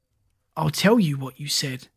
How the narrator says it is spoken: Kirk said coldly

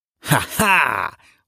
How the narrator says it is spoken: laughed the demons, with cruel glee

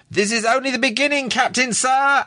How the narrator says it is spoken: yelled

